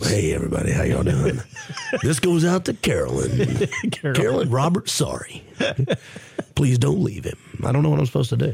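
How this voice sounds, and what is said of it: Radio DJ style voice. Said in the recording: “That's the true radio voice.”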